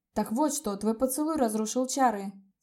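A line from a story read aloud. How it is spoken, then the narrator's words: Amazed exclamation. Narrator (Russian): с изумлением воскликнул Коста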